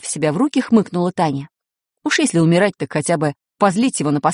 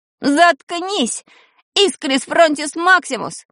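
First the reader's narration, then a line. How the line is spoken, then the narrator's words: Shouted. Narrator (Russian): закричал он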